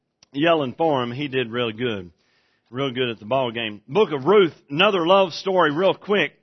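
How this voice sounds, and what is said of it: Hoarse, strained voice. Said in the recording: “I lost my voice yelling at you last night at the ball game.”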